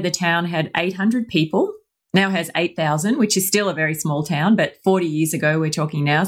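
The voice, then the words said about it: Australian accent. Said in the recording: “you could probably tell from my accent, I am Australian.”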